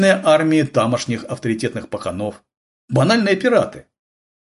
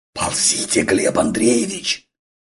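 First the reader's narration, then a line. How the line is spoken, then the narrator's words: Hissing. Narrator (Russian): шипел Дениска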